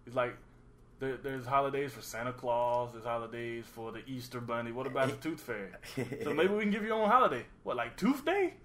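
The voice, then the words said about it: Comedic impression of a character's voice. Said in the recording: “Is that your black impression? ... That's my impression of ... Eddie Murphy doing a black impression? ... Of the Tooth Fairy.”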